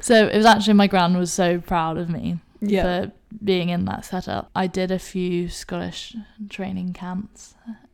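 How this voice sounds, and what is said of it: English accent. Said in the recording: “I'm not Scottish at all, if you can't tell from my accent... I'm actually more Scottish than I am English, despite the accent”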